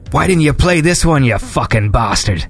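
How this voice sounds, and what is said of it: Put-on Irish accent. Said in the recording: “I don't know why I gave you that accent ... Was that an Irish accent? ... Yeah, I guess.”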